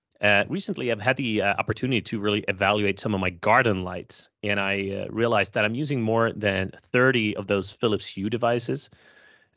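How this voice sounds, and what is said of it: Strained, recovering voice. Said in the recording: “I've got and still have a kind of viral lung infection ... It's clearing up now, so I can speak again ... my voice may be shifting throughout the episode”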